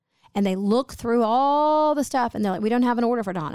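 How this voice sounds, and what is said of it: Usual voice. Nothing is said of it.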